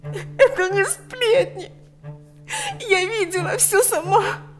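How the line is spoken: Sobbing. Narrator (Russian): Лика не в силах больше сдерживать рыдания

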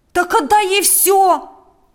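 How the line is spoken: Young man's exclamation. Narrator (Russian): воскликнул молодой человек

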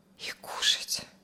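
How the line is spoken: Quiet addition. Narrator (Russian): Алексей с трудом тихо добавил

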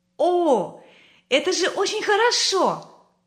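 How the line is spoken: Children exclaiming in chorus. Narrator (Russian): хором воскликнули дети

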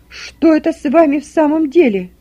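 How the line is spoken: Angry shout, losing control. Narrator (Russian): прокричала с гневом, не могущая уже больше сдерживать себя мать

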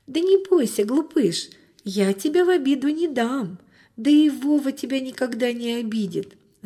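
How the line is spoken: Girl laughing, soothing. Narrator (Russian): засмеялась девочка, успокаивая питомца

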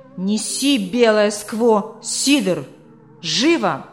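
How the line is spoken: Fierce barking. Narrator (Russian): рявкнул Вормсли со свирепым выражением лица

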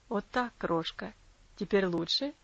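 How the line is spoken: Tender question. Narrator (Russian): Ласково спросил он

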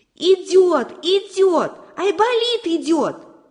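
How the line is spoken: Shouting. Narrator (Russian): закричала белочка

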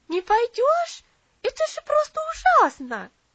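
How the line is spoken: Indignant shout. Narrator (Russian): возмущенно закричала Луси

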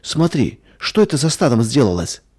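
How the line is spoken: Frightened cry. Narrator (Russian): испуганно вскрикнула Надя

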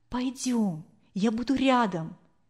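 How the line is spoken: Whispering. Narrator (Russian): Анфиса зашептала

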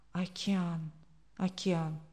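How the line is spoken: Woman's whisper. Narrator (Russian): прошептала женщина

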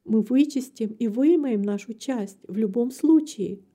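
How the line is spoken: Plain. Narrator (Russian): ответила мать

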